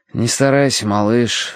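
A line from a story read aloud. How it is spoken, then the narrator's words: Sighing. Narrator (Russian): вздохнул я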